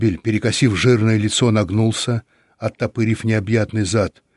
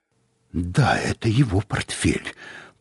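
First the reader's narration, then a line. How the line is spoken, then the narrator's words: Muttering. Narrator (Russian): пробормотал он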